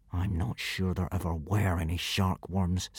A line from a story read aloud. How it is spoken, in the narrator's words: said Hiccup through gritted teeth